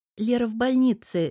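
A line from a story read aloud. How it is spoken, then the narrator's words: Guilty girl's reply. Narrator (Russian): виновато отозвалась девушка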